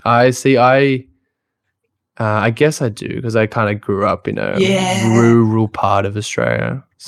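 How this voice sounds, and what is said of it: Strong Australian accent. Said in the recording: “You got a very strong Australian accent”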